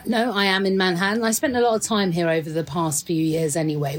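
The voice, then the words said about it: British London accent. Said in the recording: “you've got a funny accent for New York City... I do have a funny accent for New York City... London”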